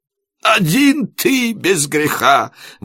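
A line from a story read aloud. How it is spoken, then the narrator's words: Sobbing. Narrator (Russian): возрыдал Иаков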